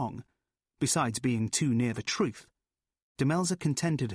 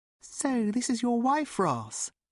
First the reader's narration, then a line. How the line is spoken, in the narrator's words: said Ruth sweetly